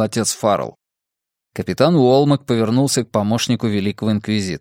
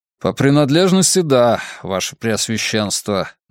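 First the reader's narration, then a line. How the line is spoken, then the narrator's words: Gloomy admission. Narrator (Russian): мрачно признал Уолмак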